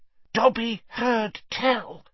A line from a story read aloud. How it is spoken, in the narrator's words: he said hoarsely